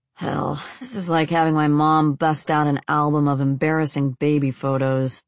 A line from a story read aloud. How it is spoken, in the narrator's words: Alex grumbled